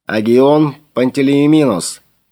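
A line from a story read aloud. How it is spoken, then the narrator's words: Booming over loudspeakers. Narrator (Russian): прогремел из динамиков кают-компании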